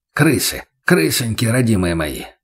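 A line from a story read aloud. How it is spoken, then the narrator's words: Muttering, train driver. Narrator (Russian): пробормотал машинист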